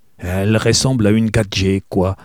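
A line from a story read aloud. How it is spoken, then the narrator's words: Gruff tone. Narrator (French): ajouta-t-elle finalement d'un ton bourru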